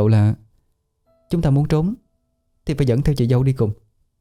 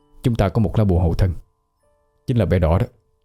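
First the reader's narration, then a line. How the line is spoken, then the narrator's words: Soft comforting voice. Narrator (Vietnamese): nhỏ giọng an ủi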